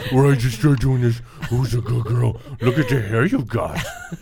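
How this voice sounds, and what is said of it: Cooing baby-talk voice. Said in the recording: “my baby voice is the same as my dog and animal voice ... the doggy voice ... That's my cute, adorable voice”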